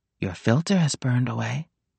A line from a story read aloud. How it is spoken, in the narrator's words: Nick said softly